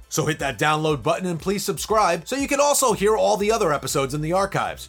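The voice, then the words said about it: New York accent. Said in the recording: “my shitty New York accent”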